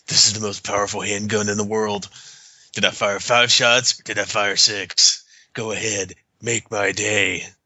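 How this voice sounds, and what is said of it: Good Clint Eastwood impression. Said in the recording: “That's a pretty good Clint impression”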